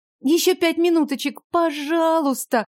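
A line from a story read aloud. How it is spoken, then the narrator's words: Sleepy pleading. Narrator (Russian): взмолилась сонно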